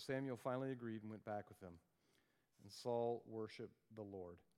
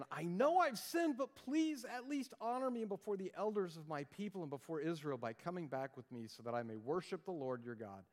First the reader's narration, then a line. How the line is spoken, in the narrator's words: Saul pleaded again